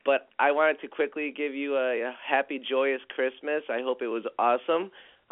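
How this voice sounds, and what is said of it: Raspy, hoarse voice. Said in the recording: “I have a raspy voice. I've had sore throat”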